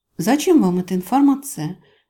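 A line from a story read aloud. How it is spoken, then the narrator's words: Very soft, placating. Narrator (Russian): Говорю максимально мягко, чтобы не провоцировать противника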